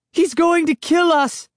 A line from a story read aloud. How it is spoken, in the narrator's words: Sari cried